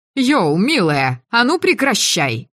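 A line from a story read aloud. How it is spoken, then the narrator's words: Brisk shout from behind. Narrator (Russian): бойко крикнули сзади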